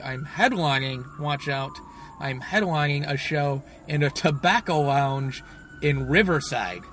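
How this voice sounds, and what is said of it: Sarcastic delivery. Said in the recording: “I was saying that sarcastically”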